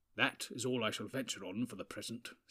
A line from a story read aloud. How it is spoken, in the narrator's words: said Gandalf